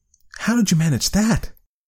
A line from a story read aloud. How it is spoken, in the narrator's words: Timmy asked breathlessly